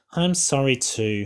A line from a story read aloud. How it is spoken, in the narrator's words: said Danielle